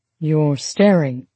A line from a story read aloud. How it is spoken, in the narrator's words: he said softly, smiling at her